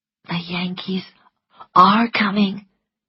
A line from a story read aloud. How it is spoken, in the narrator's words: whispered Melanie